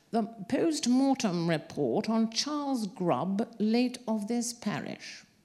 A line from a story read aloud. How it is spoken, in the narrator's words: the coroner said in a reedy voice